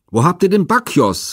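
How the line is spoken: Angry shout. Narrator (German): rief ihnen Pentheus zornig entgegen

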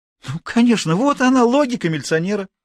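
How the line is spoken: Exclaiming. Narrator (Russian): воскликнула Мария

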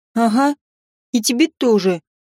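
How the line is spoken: Grumbling. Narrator (Russian): пробурчала она

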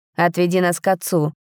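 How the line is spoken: Dry command. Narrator (Russian): сухо приказал Рейн

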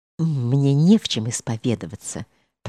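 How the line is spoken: Muttering. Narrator (Russian): пробормотал он

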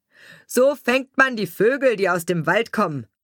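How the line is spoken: Loud laughing bird-catcher. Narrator (German): sprach der Vogelsteller laut lachend

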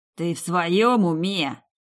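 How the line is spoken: Hissed. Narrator (Russian): прошипел Радан

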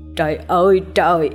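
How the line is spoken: Wailing cry. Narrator (Vietnamese): Tiếng kêu gào vào lúc tờ mờ sáng

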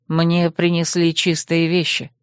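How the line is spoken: Calm retort. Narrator (Russian): спокойно парировал Земка

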